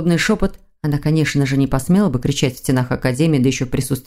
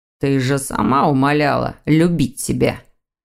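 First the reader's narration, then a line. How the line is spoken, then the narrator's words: Through gritted teeth. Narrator (Russian): Сквозь зубы процедил молодой человек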